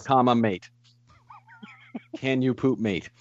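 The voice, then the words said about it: Put-on accent, unsure attempt. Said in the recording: “have the accent ... Am I doing it right? Is that right? No?”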